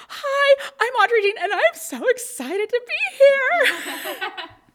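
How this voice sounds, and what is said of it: Hyperactive, excited high-energy voice. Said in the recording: “I sounded like a hyperactive Pomeranian”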